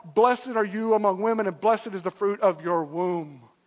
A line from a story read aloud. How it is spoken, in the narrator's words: Elizabeth, being filled with the Holy Spirit, exclaims with a loud cry